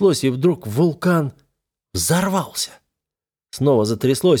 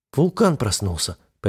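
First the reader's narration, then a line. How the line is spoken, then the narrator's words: Almost calm. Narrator (Russian): почти спокойно ответила она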